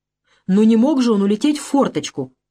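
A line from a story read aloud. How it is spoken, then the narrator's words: Exclaiming. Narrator (Russian): воскликнула Ольга Дмитриевна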